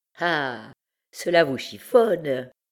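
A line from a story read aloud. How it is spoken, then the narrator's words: Old woman sneering. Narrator (French): continua la vieille en ricanant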